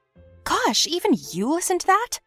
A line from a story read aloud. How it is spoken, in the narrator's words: I asked the nerd indignantly